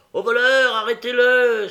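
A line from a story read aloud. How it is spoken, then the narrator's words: Joyful crowd exclaiming. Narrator (French): s'écrie-t-on avec joie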